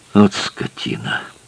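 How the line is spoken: Mutter. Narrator (Russian): пробормотал Этьен

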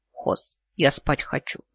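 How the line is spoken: Mumbling. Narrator (Russian): бормочу

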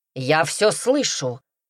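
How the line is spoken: Displeased dragon barking. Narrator (Russian): рявкнул недовольный дракон

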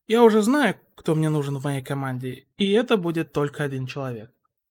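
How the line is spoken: Sighing. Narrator (Russian): Хитора вздохнул и сказал

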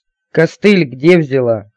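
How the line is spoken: Snorting. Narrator (Russian): хмыкнула

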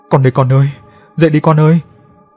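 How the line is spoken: Manic laughter, ceaseless shouting. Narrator (Vietnamese): Bảo Hoa này cười sằng sặc, miệng không ngừng la hét

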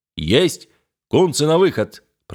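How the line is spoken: Deep bass voice. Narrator (Russian): пробасил боцман

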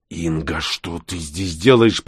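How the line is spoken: Hissed. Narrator (Russian): прошипел он

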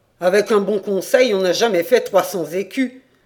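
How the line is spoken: Grumbling. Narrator (French): grogna Jean Gompère

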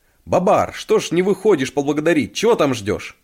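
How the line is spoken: Shout. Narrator (Russian): крикнул

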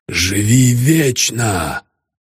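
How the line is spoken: Hoarse rasp. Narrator (Russian): прохрипел я

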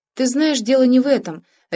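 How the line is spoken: Sharp interruption. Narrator (Russian): резко перебил Сергей

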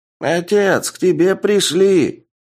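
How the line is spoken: Slightly quieter but loud, old man. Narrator (Russian): Чуть тише, но по-прежнему громко сказал старик

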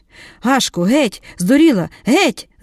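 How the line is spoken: Shrieked. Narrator (Ukrainian): заверещала Марія

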